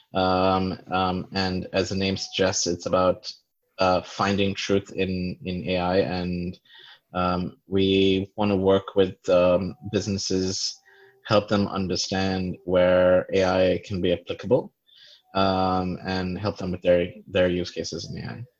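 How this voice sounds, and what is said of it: American-sounding international English accent. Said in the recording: “I detect an accent. It's not, it's an American accent... when I was in the US, people say it's a British accent”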